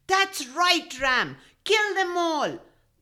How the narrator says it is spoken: the goat shouted

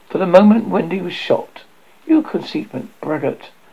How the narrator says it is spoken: she exclaimed with frightful sarcasm

